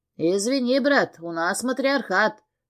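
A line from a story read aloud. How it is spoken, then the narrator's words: Smirking grunt. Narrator (Russian): хмыкнул он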